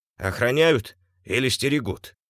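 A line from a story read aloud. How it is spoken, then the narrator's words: Snorting tailor. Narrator (Russian): хмыкнул швец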